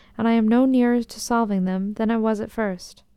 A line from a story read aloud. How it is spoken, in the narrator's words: added mournfully